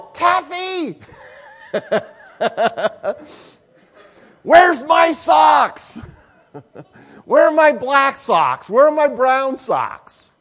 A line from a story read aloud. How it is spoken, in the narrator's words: I will yell